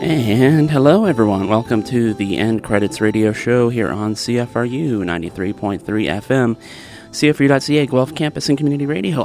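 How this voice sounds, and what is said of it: Sick-sounding voice. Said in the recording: “can you tell I'm diseased? My voice is... mine might start sounding like that, too”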